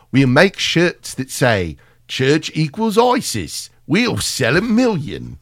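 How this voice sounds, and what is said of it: Deliberately bad British accent. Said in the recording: “I'm doing a better British accent than him right now ... I'm trying to do the worst one I can.”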